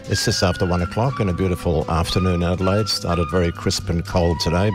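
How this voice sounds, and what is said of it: Congested voice from a cold. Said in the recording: “You may be able to tell I've got a bit of a cold, a bit of a lurgy lurking at the moment ... almost as incapacitated in their talking and singing capacity as I am”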